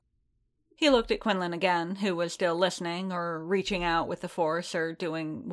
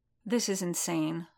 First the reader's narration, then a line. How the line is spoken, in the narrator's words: Fennec muttered